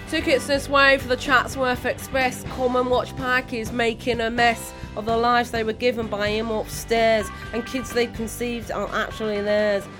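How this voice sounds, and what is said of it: Poor put-on northern English accent. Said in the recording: “will now attempt to recreate it in my own appalling northern accent”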